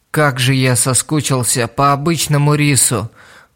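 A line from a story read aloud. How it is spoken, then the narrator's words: Groaning. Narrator (Russian): простонал он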